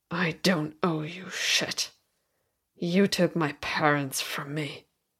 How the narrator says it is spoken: he hissed

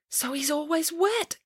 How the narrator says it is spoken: gasped Samantha

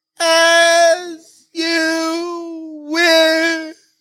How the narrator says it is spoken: While tumbling down, he shouts

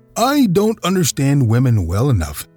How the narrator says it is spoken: answered

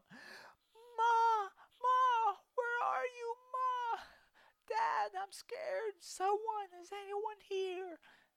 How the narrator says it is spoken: His voice echoes throughout the forest

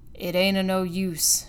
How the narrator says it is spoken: growled he

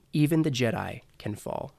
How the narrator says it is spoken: In the very far distance, he hears somebody say, very calmly

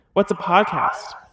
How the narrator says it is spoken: the low voice intoned

